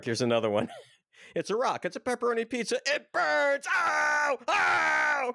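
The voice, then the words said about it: Screaming impression of another person's voice. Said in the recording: “That was a good impersonation of Sam Kinison. I liked your screaming was right on.”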